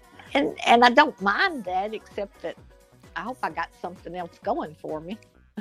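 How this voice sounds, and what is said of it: Southern US accent. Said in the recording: “you've got a southern accent ... Your accent sounds so sexy ... There's that southern charm ... you've got a southern voice”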